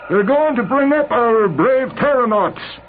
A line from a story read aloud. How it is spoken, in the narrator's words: Clayball shouted